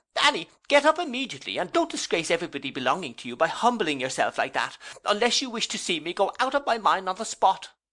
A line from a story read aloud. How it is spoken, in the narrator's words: Markleham, by this time recovering the power of speech, and seeming to swell with family pride and motherly indignation, here exclaimed